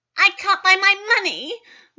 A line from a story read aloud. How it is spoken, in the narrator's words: wailed Gwendolyn